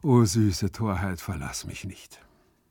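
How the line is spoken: Giggling from the bushes. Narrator (German): kicherte es aus den Myrtenbüschen

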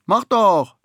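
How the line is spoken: Calling from far back. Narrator (German): ruft Vanya von weiter hinten in der Schlange

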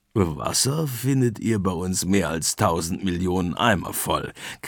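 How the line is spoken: Macaw squawking. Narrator (German): krächzt der Ara

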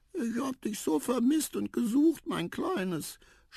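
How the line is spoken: Mother's tender sobbing. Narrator (German): schluchzte die Mama zärtlich

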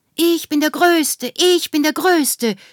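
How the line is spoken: Shouting repeatedly. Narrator (German): schrie immer zu

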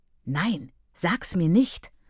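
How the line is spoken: Reproachful whispered snap. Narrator (German): fuhr flüsternd an und widersprach sich vorwurfsvoll

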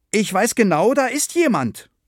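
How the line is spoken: Firm-voiced call. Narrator (German): rief Frieda noch einmal mit fester Stimme

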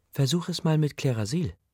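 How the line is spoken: Gentle. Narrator (German): sagte sie sanft

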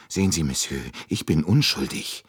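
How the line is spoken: Still fearful. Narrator (German): sagte Michel noch immer ängstlich

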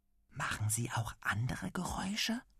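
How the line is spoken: Quiet question. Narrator (German): fragt er leise

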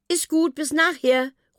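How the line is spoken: Calling back. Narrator (German): ruft Mila zurück

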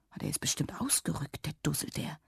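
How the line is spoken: Quiet mother. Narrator (German): sagte Mama leise

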